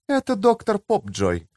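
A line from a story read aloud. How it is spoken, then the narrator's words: Soothing tone. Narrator (Russian): объяснила та успокаивающим тоном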